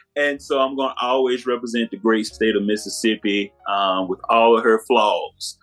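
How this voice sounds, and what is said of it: Mississippi Southern American accent. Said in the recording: “I'm going to always represent Mississippi. I cannot hide this accent from nobody.”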